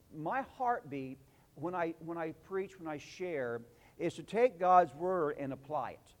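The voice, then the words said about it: Southern Illinois drawl, twang. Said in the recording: “We're from Southern Illinois. We speak with a drawl. ... a Southern Illinois twang”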